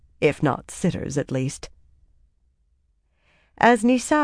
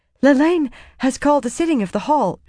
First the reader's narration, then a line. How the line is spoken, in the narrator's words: she said breathlessly